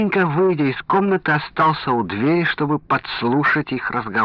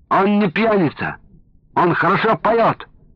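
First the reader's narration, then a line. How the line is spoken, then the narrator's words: Shouting from behind door. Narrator (Russian): закричал из-за двери Венька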